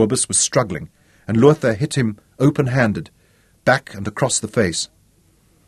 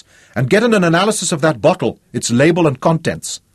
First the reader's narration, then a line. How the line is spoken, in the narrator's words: he yelled at Lorenz